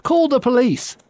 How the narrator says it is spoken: cried the mayor

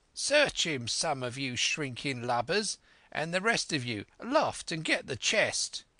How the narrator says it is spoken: cried

